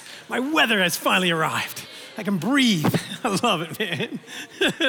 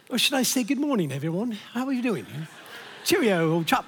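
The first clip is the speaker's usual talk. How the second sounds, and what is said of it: Put-on British accent. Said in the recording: “Somehow sounds more anointed, doesn't it? ... I sound like a British person this morning too.”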